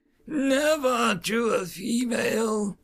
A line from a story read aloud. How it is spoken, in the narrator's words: Gaval croaked